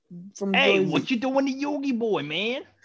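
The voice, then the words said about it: Imitated Brooklyn accent character voice. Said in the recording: “With that Brooklyn accent”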